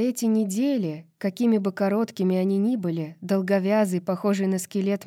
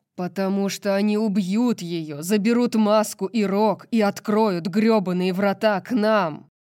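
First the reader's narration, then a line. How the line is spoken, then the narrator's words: Roared. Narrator (Russian): проревел Ризант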